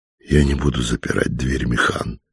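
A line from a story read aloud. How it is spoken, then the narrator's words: Quiet female reply. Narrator (Russian): тихо ответила чертовка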